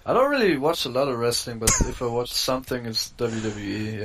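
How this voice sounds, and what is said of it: Slight German accent. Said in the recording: “a little bit of a twang in your voice, a little bit of an accent ... I'm from Germany.”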